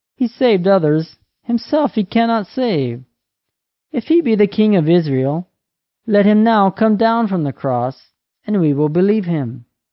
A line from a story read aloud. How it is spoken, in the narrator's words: The chief priests and elders and scribes mockingly said